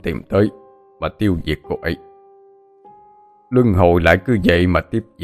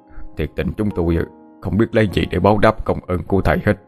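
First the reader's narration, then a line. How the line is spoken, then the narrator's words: Profuse, grateful. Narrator (Vietnamese): ông Tú cảm ơn thầy rối rít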